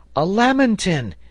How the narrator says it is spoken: he cried

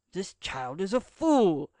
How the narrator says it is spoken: exclaimed the pretended American, forgetting in his anger to make use of his foreign accent

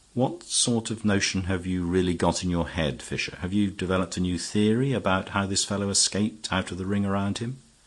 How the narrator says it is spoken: Sir Walter said quietly

